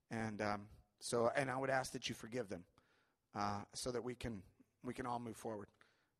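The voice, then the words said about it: Emotional, choked-up voice. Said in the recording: “I don't know why I'm getting emotional.”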